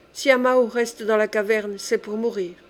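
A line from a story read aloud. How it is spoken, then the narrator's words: Plain. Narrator (French): dit-elle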